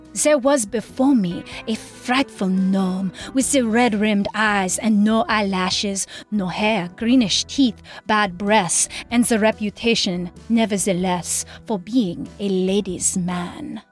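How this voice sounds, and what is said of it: Put-on French accent. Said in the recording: “Here's my French accent.”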